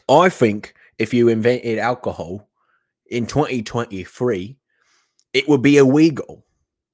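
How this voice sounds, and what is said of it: Put-on British accent. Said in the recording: “he was saying in his stupid British accent ... I'm not going to do the accent anymore”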